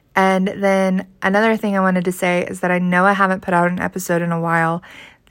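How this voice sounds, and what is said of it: Sick-sounding voice. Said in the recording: “sorry about my voice. I'm a little sick right now”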